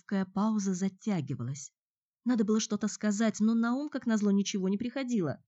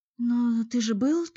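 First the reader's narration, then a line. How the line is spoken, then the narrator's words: Timid frightened babble. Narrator (Russian): только и смогла пролепетать она, боясь пошевелиться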